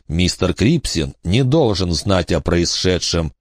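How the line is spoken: Quiet. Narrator (Russian): тихо сказал Найлс остальным

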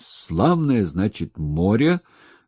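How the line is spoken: Wheezing. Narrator (Russian): просипел он

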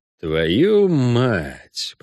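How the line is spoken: Muttered. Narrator (Russian): пробормотал ведьмак

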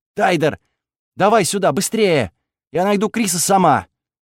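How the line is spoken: Panicked shout. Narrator (Russian): Она в панике закричала

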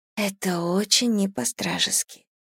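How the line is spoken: Whisper. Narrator (Russian): прошептала я

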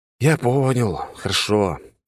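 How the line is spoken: Sighing agreement. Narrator (Russian): вздохнув, согласился

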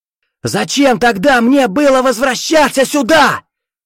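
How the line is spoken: Furious yelling. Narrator (Russian): В ярости заорал Виктор

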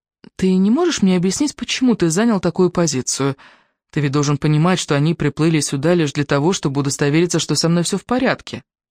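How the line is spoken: Composed calm reasoning. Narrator (Russian): Взяв себя в руки, Джорджина попыталась привнести в спор какой-то элемент здравого смысла и спокойно спросила

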